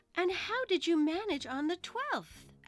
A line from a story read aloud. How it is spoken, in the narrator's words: Alice went on eagerly